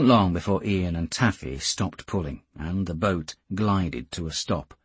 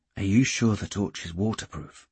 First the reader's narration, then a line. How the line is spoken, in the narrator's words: Geordie murmured